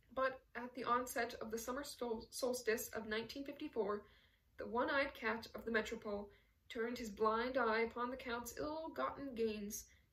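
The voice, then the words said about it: Tired, worn voice. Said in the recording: “My voice is tired”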